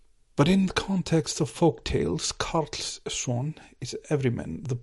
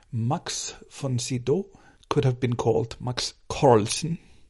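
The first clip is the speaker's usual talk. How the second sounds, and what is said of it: Put-on Swedish accent. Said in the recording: “Trying out my Swedish accent.”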